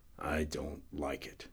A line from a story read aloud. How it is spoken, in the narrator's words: he murmured